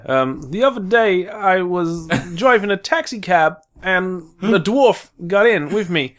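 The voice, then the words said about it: Christopher Walken impression. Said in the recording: “Can you do a Christopher Walken impression?”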